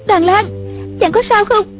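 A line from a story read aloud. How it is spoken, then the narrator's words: Crying out. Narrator (Vietnamese): Một Uyển Thanh kêu lên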